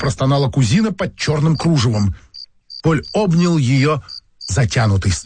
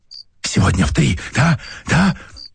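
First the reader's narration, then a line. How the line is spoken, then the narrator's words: Whistling whisper. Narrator (Russian): Со свистом прошептал Поль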